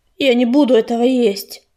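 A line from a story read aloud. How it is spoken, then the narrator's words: Angry, through teeth. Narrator (Russian): процедил грачик, гневно покосившись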